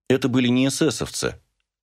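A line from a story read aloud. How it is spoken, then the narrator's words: Calm. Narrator (Russian): спокойно сказала мама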